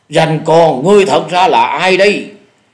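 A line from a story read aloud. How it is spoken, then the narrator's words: Loud shout. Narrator (Vietnamese): Dạ Điểu Thần Ma lại lớn tiếng quát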